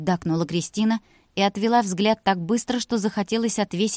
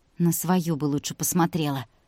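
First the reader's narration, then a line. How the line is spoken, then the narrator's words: Quieter grumble. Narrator (Russian): Чуть тише буркнула Вика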